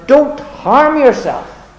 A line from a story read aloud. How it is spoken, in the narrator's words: Paul, in compassion and kindness, cried out